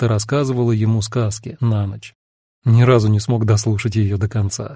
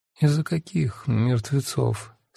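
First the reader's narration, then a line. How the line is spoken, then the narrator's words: Sleepy mumbling. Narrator (Russian): сквозь сон пробормотала Янина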